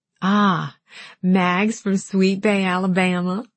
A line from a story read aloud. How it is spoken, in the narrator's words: Alan attempted an exaggerated southern drawl